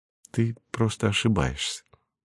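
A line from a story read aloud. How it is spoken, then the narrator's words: Calm mother's voice. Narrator (Russian): спокойно сказала ей мать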